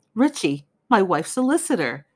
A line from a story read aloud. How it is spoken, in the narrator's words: gasped Sir Cecil